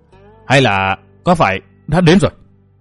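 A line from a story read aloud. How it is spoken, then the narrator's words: Strained hissing from throat. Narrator (Vietnamese): Tiếng nói rít ở nơi yếu hầu, lâu lắm mới thốt ra được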